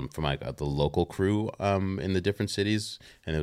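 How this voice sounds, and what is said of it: Usual voice. Nothing is said of it.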